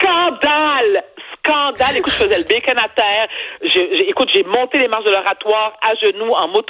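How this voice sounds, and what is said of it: Usual voice. Nothing is said of it.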